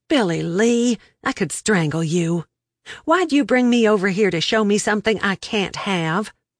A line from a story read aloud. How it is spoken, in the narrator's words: I moaned